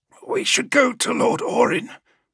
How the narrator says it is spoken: said hoarsely

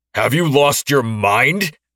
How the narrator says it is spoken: Ashton yelled

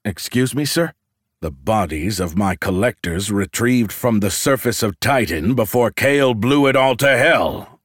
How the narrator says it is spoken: Luxarn roared

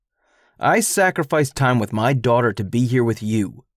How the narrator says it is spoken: spat

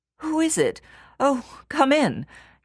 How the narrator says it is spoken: gasped the youth

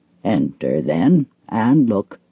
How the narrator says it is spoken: said Father Wolf stiffly

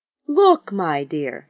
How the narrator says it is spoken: she cried

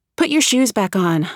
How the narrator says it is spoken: reply wearily

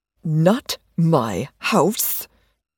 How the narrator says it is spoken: Joanna hissed with annoyed urgency

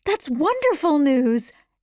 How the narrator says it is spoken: Anne cried, thrilled for her steady friend

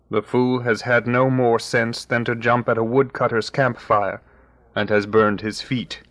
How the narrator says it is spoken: said Father Wolf with a grunt

